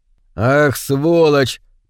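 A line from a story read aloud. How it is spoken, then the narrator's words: Grumbling. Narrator (Russian): проворчал капитан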